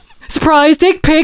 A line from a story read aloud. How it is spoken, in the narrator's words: Satchel shouted